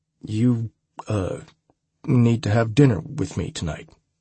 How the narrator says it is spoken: I stammered, surprising myself with my own courage

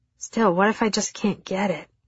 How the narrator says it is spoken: I groaned

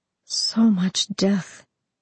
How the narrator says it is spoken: she murmured

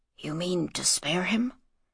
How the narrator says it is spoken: whispered Jedet

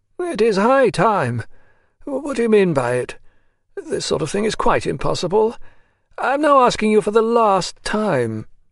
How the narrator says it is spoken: he repeated wearily

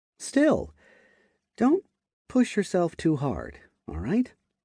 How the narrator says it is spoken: said in a kind tone

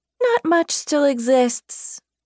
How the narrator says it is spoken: Evelina slurred

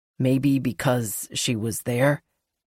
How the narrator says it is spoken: he says quietly

